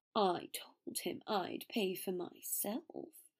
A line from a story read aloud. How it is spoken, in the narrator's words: Draco muttered